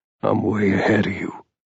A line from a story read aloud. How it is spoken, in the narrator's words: Ethan said softly